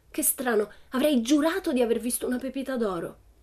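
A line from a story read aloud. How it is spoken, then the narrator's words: Disappointed exclaiming. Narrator (Italian): esclamava delusa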